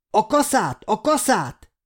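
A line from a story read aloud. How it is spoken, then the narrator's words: Shouting while fighting. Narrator (Hungarian): kiáltotta az élő Béla az űrzavarban, aki közben már 2 zombival viaskodott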